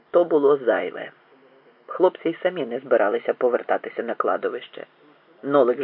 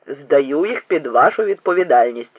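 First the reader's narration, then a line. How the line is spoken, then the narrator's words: Stern command. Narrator (Ukrainian): суворо наказав Бодня бабі Секлеті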